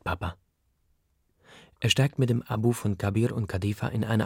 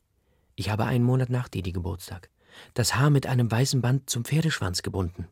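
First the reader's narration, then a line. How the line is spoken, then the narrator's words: Plain. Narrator (German): sagt Ma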